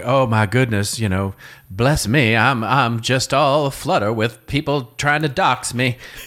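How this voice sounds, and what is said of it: Southern Belle accent impression. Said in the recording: “you just did an impression of Forrest Gump's mom in the movie ... It's the Southern Belle ... the classic Southern Belle”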